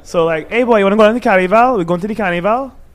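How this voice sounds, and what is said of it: Trinidadian accent. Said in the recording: “I have a Trinidad accent ... it's broken English, really”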